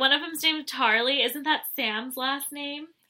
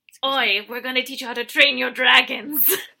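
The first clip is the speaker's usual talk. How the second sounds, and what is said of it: Weak attempt at Scottish accent. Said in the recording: “I can't do a Scottish accent, but they sounded like the How to Train Your Dragons people.”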